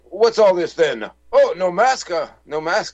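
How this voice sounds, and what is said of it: Comical put-on British accent. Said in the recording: “such a comical British accent.”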